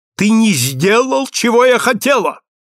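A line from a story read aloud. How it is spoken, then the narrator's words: Woman shouting. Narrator (Russian): кричала на него дама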